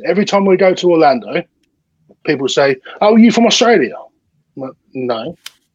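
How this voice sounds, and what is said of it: British-sounding accent. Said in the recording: “Do I sound Australian? ... it sounds very UK to me.”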